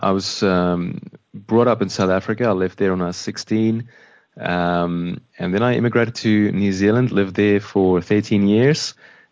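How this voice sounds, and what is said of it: Mixed South African, New Zealand, Australian accent. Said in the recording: “my accent got changed a little bit ... my accent's changed a little bit again. So I'm not quite sure what it is, but it's a combination of those three ... it's so pleasing to the ear”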